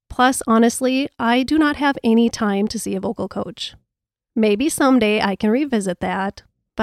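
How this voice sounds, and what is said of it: Minnesota accent. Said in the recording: “maybe it's my Minnesota accent ... we're just going to stick with this voice and this accent”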